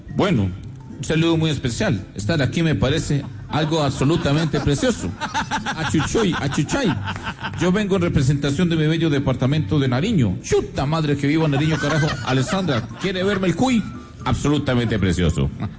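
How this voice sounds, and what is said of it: Sergio Fajardo impression, Pasto accent. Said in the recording (Spanish): “como el doctor Sergio Fajardo, que ahora también aprendió a hablar pastuso ... de todos los acentos, este es el que mejor le sale”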